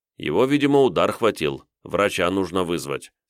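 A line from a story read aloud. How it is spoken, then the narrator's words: Calm speech. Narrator (Russian): спокойно сказал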